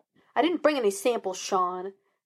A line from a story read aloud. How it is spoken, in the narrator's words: Gus snapped